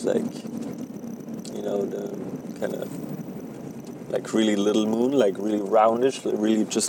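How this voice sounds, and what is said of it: German accent in English. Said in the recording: “my accent probably will never go away ... The German accent is back ... That's the German accent that nobody wants to hear.”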